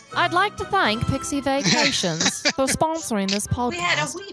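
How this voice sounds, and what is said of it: Inconsistent, poor put-on English accent. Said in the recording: “I've suddenly slipped into an accent. ... I don't know what the accent is, but it's not very good. ... it's kind of all over the place. ... It is all over the place. ... Our English listeners.”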